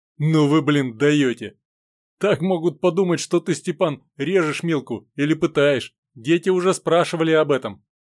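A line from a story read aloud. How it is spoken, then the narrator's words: Declaring then laughing. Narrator (Russian): заявил Сергей и засмеялся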